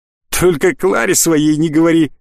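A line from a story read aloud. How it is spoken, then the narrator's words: Chuckled. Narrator (Russian): хохотнул другой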